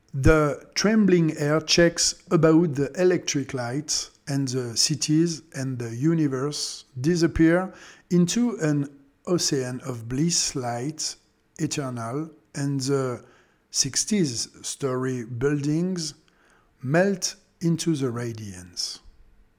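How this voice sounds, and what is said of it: Strong French accent in English. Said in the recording (French): “mon accent très français”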